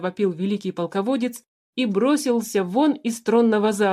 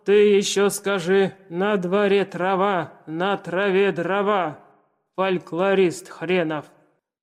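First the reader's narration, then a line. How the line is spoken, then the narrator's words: Deep booming voice. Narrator (Russian): Пробасил Цицерон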